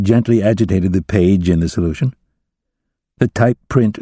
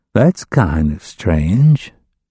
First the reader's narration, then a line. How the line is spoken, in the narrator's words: Gordon murmured